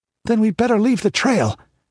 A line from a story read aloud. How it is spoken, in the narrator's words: exclaimed Balthus